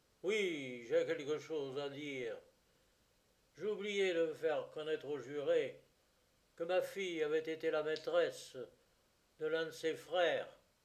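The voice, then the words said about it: Hateful, venomous tone. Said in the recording (French): “avec un accent haineux”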